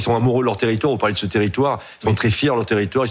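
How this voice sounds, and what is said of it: Regional French accent. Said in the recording (French): “vous le sentez à mon accent ... je suis plutôt de cette France-là, de la France des régions”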